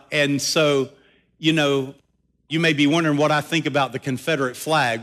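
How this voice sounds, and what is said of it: Southern American accent. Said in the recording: “I'm a Southern boy. I'm really Southern to the core. I try not to let my accent get too revealing at times”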